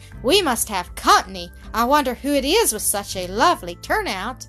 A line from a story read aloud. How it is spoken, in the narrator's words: she exclaimed